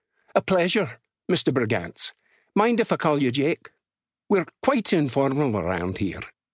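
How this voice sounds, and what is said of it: Thick Scottish accent. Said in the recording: “The accent was thick Scottish ... Jake struggled to handle the brogue.”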